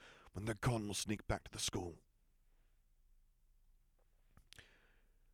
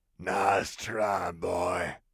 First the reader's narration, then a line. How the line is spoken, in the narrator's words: growled Fenrir from the front of the alleyway